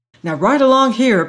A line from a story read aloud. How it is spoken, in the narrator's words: panted Dr